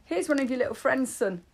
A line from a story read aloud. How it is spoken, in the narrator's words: spluttered grapes all over clean sheets